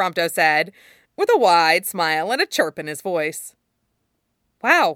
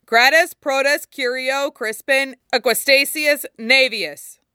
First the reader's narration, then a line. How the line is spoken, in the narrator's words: Kor called out